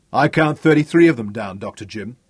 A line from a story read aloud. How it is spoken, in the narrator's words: said loudly